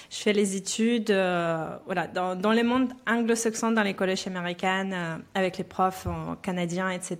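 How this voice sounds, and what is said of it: Belarusian accent in French. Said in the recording (French): “vous attendez euh, un, petit accent. Moi, je viens de Biélorussie.”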